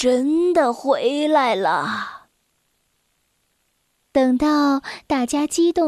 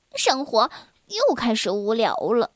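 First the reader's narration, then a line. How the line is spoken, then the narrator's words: Sighing. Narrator (Chinese): 小薇叹了口气说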